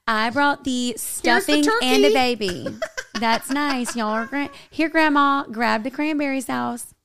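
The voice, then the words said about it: Put-on country accent. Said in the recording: “acting like Paris had a country accent”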